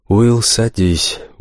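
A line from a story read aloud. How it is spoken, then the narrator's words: Tired teacher. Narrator (Russian): устало произнес учитель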